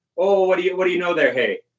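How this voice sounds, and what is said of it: Put-on Milwaukee Wisconsin accent. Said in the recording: “We even the accent. Milwaukee speak. ... Like even the accent is kind of similar.”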